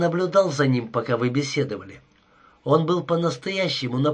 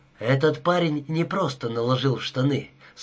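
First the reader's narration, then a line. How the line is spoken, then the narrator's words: Calm. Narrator (Russian): спокойно продолжал Дункан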